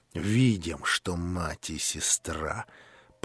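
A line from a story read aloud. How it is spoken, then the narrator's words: Through gritted teeth. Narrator (Russian): процедил сквозь зубы Рогожин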